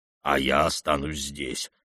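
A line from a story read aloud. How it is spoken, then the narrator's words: Muttering. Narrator (Russian): бормотал он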